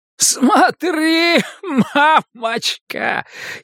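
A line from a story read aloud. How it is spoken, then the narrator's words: Giggling shout, mortally wounded. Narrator (Russian): хихикая кричит человек с стальным копьем в разрубленной груди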